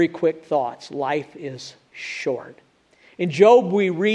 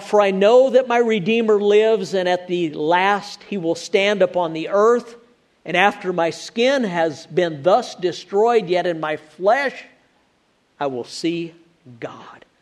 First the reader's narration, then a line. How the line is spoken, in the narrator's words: Job cried out